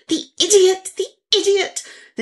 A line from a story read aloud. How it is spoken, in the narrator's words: gasp